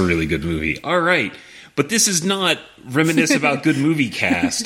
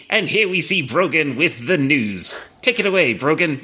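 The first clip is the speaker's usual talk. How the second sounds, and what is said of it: Old-timey transatlantic newscaster voice. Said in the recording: “talks in like that what is it, that was it, transatlantic ... old timey like newscaster ... we needed someone with that accent”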